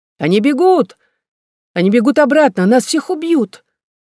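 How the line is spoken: Sudden scream. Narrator (Russian): Бетти вдруг закричала

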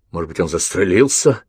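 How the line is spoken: Soldier muttering. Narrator (Russian): пробормотал один из солдат

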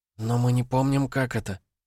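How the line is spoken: Whisper. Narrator (Russian): прошептала она

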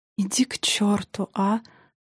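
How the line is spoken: Weary. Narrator (Russian): устало проговорил Тарас

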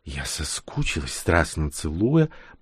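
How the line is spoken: Whisper. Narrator (Russian): прошептала она

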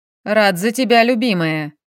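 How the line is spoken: Interrupting snort. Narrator (Russian): Перебив, хмыкнул Максим

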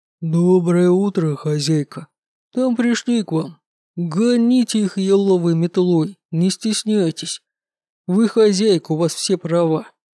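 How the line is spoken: Low booming drone. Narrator (Russian): Брогул прогудел

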